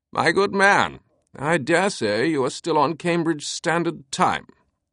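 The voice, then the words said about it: Crisp, light, thick British accent. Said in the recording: “The voice was crisp and light. ... the thick British accent.”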